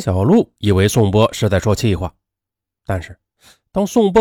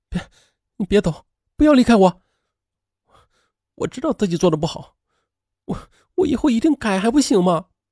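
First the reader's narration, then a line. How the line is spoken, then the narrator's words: Crying. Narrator (Chinese): 他竟然哭了起来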